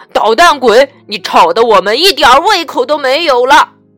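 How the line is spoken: Loud scolding. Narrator (Chinese): 爸爸妈妈 大声的训斥他

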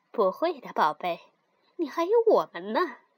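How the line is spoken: Smiling, gentle. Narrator (Chinese): 妈妈笑着说

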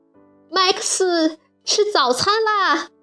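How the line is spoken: Loud call. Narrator (Chinese): 大声叫道

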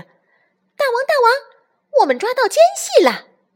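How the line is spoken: Shouting, little monkeys. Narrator (Chinese): 小猴子们大叫着

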